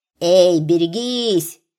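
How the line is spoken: Shouted warning. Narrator (Russian): кричал Жипцов

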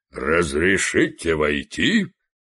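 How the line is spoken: Booming voice from porch. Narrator (Russian): прогудел чей-то голос с веранды

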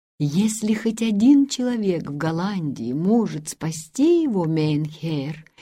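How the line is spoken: Quiet sincere voice. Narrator (Russian): негромко проговорил ассистент с неподдельной искренностью

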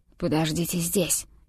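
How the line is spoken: Whispered. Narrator (Russian): шепнул мне лесник

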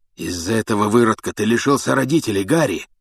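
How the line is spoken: Hoarse rasp. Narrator (Russian): прохрипел Блэк

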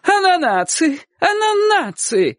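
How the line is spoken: Joyful shout. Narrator (Russian): закричала она радостно

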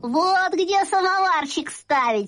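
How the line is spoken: Laughing. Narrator (Russian): сказал я и засмеялся

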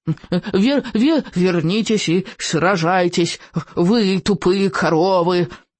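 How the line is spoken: Insulting yelling. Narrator (Russian): обидно вопил он вслед быстро удаляющимся оленьим хвостам

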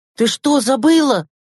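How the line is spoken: Exclaiming. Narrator (Russian): воскликнул Андрейка

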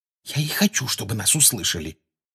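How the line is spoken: Quiet reply. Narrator (Russian): тихо отозвалась Гермиона

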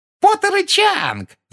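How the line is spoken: Shrieking. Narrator (Russian): завопила Пенси

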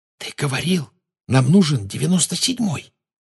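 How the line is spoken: Whispered. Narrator (Russian): прошептала Гермиона

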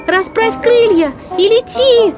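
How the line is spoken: Shouting. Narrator (Russian): закричала ему Ренни

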